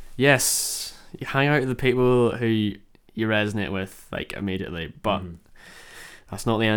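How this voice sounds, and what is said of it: Usual voice. Nothing is said of it.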